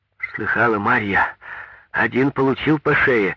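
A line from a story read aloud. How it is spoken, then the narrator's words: Joyful exclamation. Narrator (Russian): радостно воскликнул Павел Семенович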